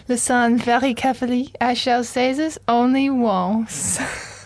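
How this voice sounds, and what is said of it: Put-on French accent. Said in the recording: “Great French accent”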